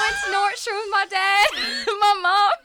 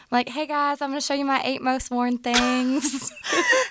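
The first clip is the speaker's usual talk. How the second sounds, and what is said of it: Subtle southern twang. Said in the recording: “you can hear a southern accent in my voice ... It was not that bold. It was a subtle twang.”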